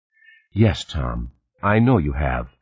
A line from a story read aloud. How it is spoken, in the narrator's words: Meredith said, her voice still soothing